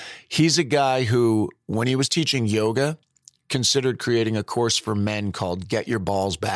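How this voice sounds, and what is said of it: Usual voice. Nothing is said of it.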